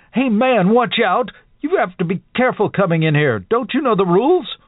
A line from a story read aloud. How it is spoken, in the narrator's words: His face twisted with a sudden rage as he screamed